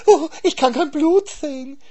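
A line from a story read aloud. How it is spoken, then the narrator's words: Wailed. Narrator (German): jammerte der Hase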